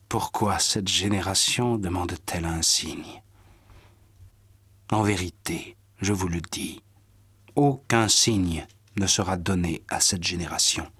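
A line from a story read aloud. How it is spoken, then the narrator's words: Sighing. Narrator (French): Jésus soupira et dit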